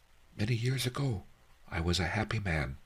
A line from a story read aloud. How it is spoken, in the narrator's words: he said in a shy, halting voice